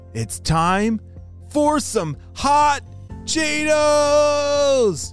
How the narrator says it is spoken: she shouted

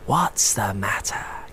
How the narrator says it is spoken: Calliope whispered

